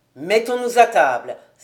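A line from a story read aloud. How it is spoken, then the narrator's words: Exclaiming. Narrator (French): s'écria Girder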